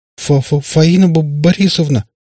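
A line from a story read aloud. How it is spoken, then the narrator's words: Frightened stammer. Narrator (Russian): начал вдруг заикаться побледневший Иван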